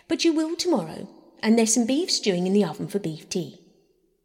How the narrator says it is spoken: said Bobby firmly

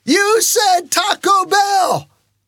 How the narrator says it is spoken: yelled out the window

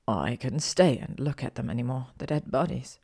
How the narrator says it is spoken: he murmured

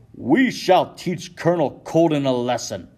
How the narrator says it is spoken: shouts Isaac Sears, a local shipmaster and Sons of Liberty organizer

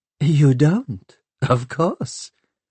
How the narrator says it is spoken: she laughed

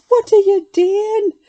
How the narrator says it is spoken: I cried, horrified

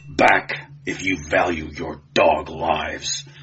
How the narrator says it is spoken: he snarled

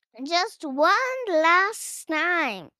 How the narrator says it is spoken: Rosa shouts

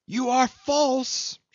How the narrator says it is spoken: she screamed after Jim

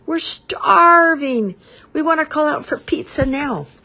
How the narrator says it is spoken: yelled

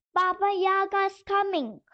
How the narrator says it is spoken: cried the little doll

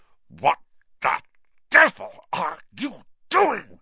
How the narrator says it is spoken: said Uncle Vernon through gritted teeth

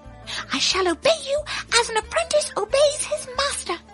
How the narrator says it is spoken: cried the hare

